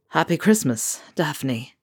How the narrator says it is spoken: Ron said, his voice hoarse

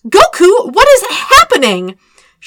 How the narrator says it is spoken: She screamed at him

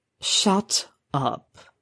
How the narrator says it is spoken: croaked

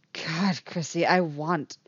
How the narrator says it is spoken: she says, desperately between kisses

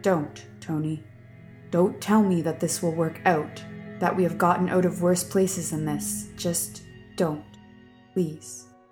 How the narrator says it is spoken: she says quietly

